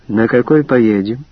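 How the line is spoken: Plain question. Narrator (Russian): спросила я

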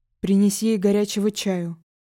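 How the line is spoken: Deep bass voice. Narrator (Russian): пробасил незнакомец

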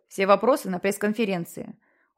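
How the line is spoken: Cold seer. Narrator (Russian): холодно сказал провидец

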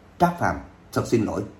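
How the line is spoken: Muttered apology. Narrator (Vietnamese): Lôi Vũ Đình lẩm bẩm nói

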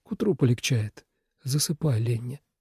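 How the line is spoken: Sleepy mumble. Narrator (Russian): пробормотал он, не открывая глаз

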